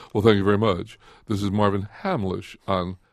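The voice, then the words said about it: Announcer-style radio voice. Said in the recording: “I always get into my radio voice.”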